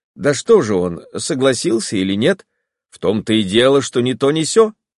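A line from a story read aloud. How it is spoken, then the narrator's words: Plain. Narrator (Russian): сказал Вронский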